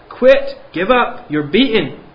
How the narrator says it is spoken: they still shout in my face

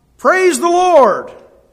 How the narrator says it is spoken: She would shout

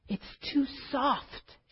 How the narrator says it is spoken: sighed

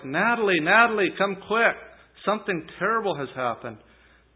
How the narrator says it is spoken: He then shouted to his wife

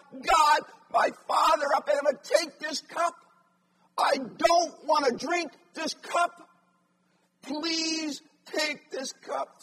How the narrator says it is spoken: Jesus three times cried out

